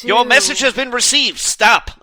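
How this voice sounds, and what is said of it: 1930s mid-Atlantic telegraph reporter accent. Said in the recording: “she would send it in a 1930s reporter reading a telegraph accent ... Are you going all mid-Atlantic on us here?”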